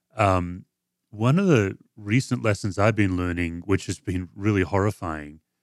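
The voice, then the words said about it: Speaks with a noticeable accent. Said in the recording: “with my accent, I may not have pronounced well”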